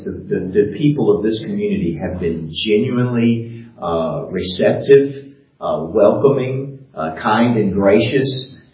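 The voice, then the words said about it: Southern American accent. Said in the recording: “when they hear my accent and they know this guy's not from around here ... they pick up on the foreign accent ... excuse the accent, not only the American accent, but then the Southern accent”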